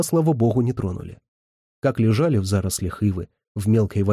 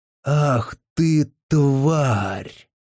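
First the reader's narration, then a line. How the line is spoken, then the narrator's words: Hoarse angry grieving old man. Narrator (Russian): Сиплым от гнева и горя голосом проговорил величественный старик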